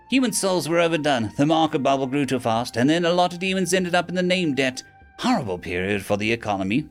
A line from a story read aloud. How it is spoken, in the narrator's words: the imp sighed